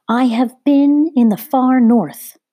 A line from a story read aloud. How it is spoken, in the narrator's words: the woman cried out in a shrilling voice